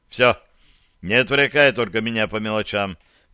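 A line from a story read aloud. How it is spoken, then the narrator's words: Stern. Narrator (Russian): добавил я строго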